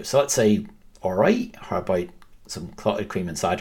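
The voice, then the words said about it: Brief attempt at a regional accent. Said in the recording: “It was a really strong start attempt of the accent too ... Not bad at all.”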